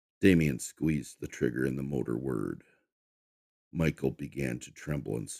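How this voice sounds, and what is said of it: Usual voice. Nothing is said of it.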